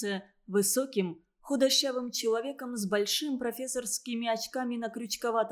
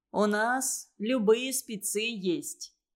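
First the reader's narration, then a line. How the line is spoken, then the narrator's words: Plain. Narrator (Russian): сказал Афанасьев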